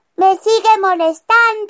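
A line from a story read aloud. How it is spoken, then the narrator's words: Cow shouting. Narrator (Spanish): gritaba la vaca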